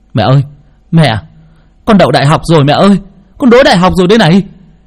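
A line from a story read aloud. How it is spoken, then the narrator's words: Wailing, overjoyed. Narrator (Vietnamese): ôm chầm lấy mẹ mà gào lên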